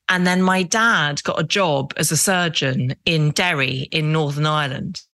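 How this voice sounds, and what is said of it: Very English accent. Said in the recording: “as you can hear, I speak with a very English accent”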